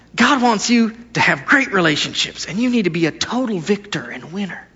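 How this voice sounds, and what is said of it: Put-on televangelist preaching voice. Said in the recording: “I'll do my best televangelist voice”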